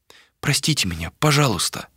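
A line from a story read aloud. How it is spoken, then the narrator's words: Whisper. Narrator (Russian): прошептала Малика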